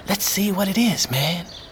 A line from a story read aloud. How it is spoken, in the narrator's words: he whispered